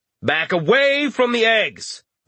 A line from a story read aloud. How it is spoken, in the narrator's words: Richter had shouted